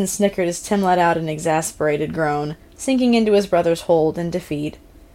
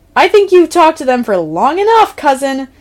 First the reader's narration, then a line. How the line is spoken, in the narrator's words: Tim yelled, loud enough for his phone to pick up